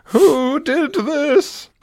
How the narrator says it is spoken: wailed

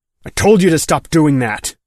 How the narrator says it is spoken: Mick snapped

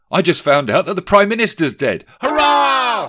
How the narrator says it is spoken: shouted the family, and how they all laughed

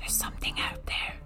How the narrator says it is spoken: She whispered

